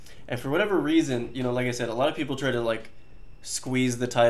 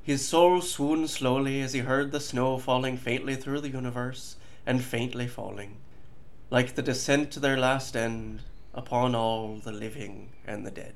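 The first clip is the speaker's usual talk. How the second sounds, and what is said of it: Put-on Irish accent. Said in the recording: “I have to read it in an Irish accent”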